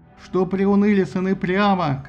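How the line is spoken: Shouting. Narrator (Russian): кричал он

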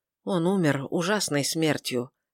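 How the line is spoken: Quiet. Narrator (Russian): тихо сказал Филипп

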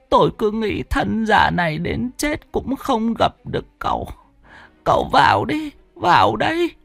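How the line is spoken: Old woman, tearful. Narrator (Vietnamese): Bà lão ... mếu máo

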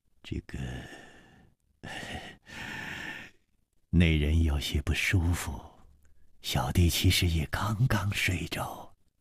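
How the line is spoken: Sighing. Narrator (Chinese): 叹了一口气说

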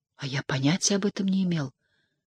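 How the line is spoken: Mutter. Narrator (Russian): пробормотал

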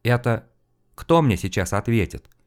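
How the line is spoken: Quiet question. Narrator (Russian): Помолчав немного, негромко осведомился Карнаев

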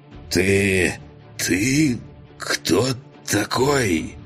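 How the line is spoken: Hoarse question. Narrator (Russian): хриплым голосом спрашивает он

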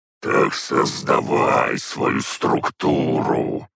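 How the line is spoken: Raging growl. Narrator (Russian): рычал и бесновался Бельзияр

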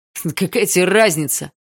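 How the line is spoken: Yell. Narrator (Russian): заорал Вал

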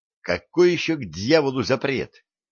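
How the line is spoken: Exclaimed. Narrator (Russian): воскликнул

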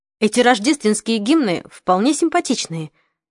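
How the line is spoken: Cheerful. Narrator (Russian): сказал он весело

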